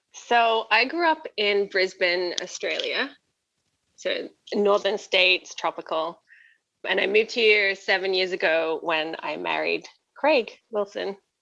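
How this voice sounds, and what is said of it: Non-Canadian accent. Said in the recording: “you have a different accent than that”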